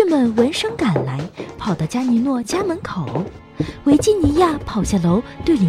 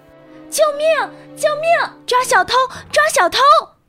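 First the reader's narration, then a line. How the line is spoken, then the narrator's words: Loud cries for help. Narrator (Chinese): 维基尼亚打开窗子，大声呼喊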